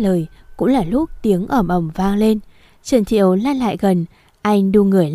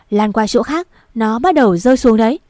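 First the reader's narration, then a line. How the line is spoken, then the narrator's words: Loud shout. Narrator (Vietnamese): Bạch Chính Phong hét lớn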